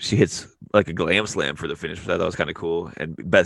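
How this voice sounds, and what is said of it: Usual voice. Nothing is said of it.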